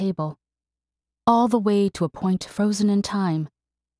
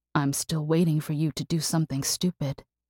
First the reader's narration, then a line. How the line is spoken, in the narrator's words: he whispered in her mind